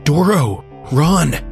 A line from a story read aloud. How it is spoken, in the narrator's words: Jaw yelled through clenched teeth